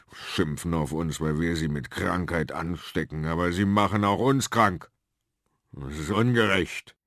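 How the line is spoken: Growling. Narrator (German): knurrte

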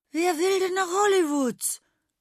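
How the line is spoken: Cheerful exclamation. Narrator (German): rief Prinz Igor fröhlich aus

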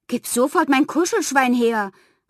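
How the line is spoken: Call. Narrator (German): rief

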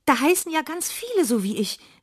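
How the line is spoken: Excited call. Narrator (German): rief aufgeregt und vergaß darüber völlig ihren Ärger

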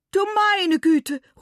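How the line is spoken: Exclaiming. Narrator (German): ruft Madame Mamba

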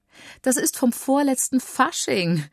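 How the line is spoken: Mother laughing. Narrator (German): lacht Mama

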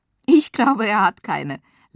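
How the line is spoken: Laughing. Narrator (German): lachte Sarah

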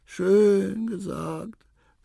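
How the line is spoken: Small creature sighing. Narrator (German): seufzte das Rüsselhündchen

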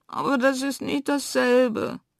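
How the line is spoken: Sobbing. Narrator (German): schluchzt Fridolina

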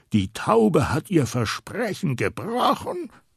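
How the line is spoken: Thundering. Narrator (German): donnert er

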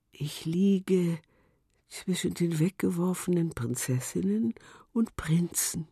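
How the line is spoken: Shell whispering. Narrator (German): flüsterte die Muschel

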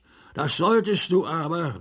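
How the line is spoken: King calling out. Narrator (German): rief der König

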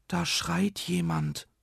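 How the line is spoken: Whispering. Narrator (German): flüsterte

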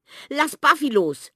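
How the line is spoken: Desperate shout. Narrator (German): schreit Sami und schlägt verzweifelt auf Theo ein

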